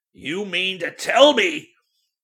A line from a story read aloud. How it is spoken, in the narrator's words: almost thundered